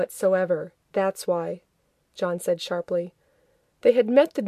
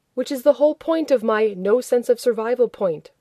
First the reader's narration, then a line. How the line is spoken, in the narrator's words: Rodney shouted